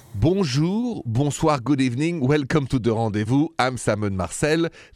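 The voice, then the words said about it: French accent. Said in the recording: “The accent is French.”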